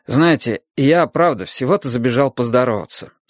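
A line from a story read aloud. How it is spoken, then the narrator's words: Plain. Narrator (Russian): сказал я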